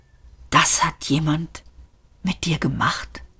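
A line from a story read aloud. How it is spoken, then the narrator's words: Whispered. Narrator (German): flüsterte Ford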